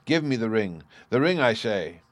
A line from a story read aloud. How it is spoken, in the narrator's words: calling up the last spark of life left in his famished body, he cried out to Siegfried